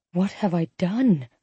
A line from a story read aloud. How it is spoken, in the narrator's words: I whispered